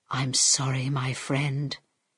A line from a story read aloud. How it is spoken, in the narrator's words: he whispered to Harold